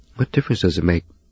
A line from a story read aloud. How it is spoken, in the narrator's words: he snapped